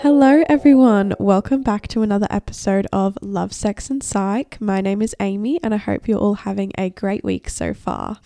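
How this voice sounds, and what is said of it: Nasal, congested sick voice. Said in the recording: “I sound really nasally or my voice just sounds weird because I'm actually sick again ... sorry if I sound weird or nasally”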